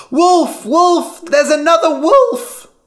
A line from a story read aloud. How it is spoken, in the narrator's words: again, Lyman shouted